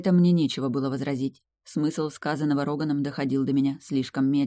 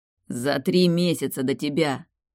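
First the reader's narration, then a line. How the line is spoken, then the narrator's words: Growling. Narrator (Russian): рыкнул Роган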